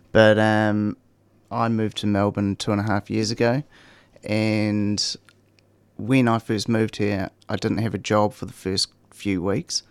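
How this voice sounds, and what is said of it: New Zealand accent. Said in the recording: “you can probably tell by the accent, I'm from New Zealand”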